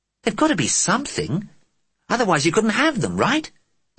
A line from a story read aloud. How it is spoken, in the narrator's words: said Johnny desperately